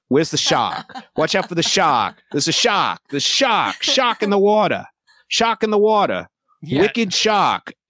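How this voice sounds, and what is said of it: Mock New England accent. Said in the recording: “supposed to be New England. Nobody has an accent.”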